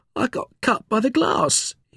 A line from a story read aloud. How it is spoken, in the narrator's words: whimpered